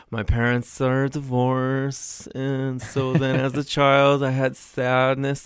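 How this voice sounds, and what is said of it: Exaggerated, thickening funny voice. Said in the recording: “he's degenerating into some sort of... putting out a funny voice... Ever-thickening funny voice.”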